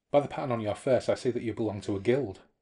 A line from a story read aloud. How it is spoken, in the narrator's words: said the monk sharply